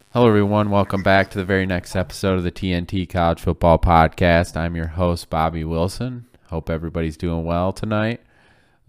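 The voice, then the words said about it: Stuffy, congested voice. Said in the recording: “I apologize if my voice sounds a little stuffy. ... the allergies are acting up”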